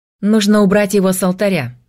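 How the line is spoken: Sharp. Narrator (Russian): резко сказал Айвар

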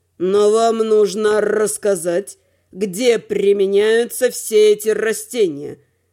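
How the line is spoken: Sadistic, gleeful drawl. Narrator (Russian): С садистским удовольствием протянул Надим

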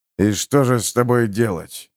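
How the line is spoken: Grumbling. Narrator (Russian): проворчал Харман

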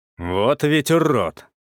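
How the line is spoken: Sergeant's angry grumble. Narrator (Russian): зло пробурчал сержант

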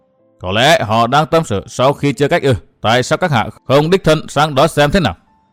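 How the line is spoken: Cold. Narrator (Vietnamese): lạnh lùng nói

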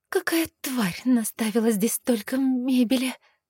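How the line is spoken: Breathless hiss through teeth. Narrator (Russian): Шипя сквозь зубы, поинтересовалась я, пытаясь отдышаться

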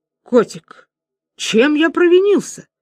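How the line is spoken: Exclamation. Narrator (Russian): воскликнул поэт в прозе

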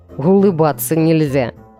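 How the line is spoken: Muffled laugh. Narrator (Russian): глухо рассмеялся он

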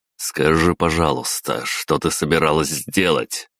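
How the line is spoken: Plain. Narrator (Russian): спросил я

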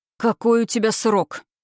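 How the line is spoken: Growled. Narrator (Russian): прорычал он

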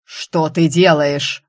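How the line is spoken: Ruler's harsh bark. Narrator (Russian): рявкнул повелитель

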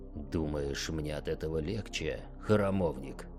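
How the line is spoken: Hissed. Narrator (Russian): прошипел он

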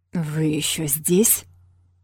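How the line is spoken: Menacing growl. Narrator (Russian): прорычал он с угрозой

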